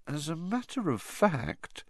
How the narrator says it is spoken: she added, her voice now trembling slightly

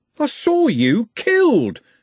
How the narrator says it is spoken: Trev shouted

